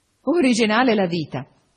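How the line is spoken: Laughing. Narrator (Italian): disse Guido ridendo

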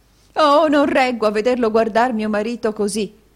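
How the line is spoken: Woman exclaiming. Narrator (Italian): esclamò la signora Kenwigs

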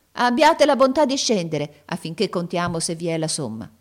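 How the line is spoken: Old woman exclaimed. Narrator (Italian): la vecchia esclamò

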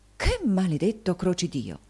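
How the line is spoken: Frightened exclamation. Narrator (Italian): Anche il signor Mantalini sentì la loro influenza e, volgendosi spaventato, esclamò

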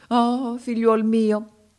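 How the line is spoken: Sorcerer's exclamation. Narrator (Italian): esclamò il mago africano

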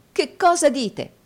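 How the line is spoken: Exclaimed. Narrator (Italian): esclamò Nicola

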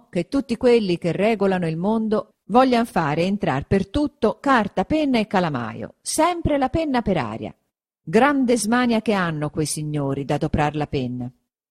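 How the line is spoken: Exclaimed. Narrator (Italian): esclamò

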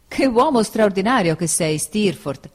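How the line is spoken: Exclaimed. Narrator (Italian): esclamai

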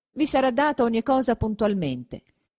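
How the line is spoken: Plain. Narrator (Italian): disse il notaio

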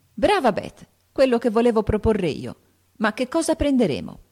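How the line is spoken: Exclaimed. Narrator (Italian): esclamò Joe

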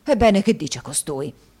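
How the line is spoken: Flushed, angry exclamation. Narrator (Italian): esclamò Squeers facendosi rosso

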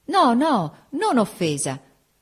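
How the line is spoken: Sincere shout. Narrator (Italian): gridò la sincera Augusta

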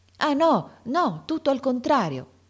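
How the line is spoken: Heartfelt exclamation. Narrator (Italian): esclamò De Rossi con uno slancio dell'anima

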